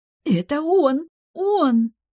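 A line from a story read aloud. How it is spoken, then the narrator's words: Joyful, near squealing. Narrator (Russian): Она готова была визжать от радости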